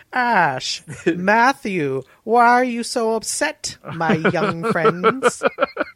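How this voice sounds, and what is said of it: Character impression, sounds very old. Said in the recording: “Is that your Fish Mooney impression? ... That's a good Fish Mooney. ... You're like a very, very old person.”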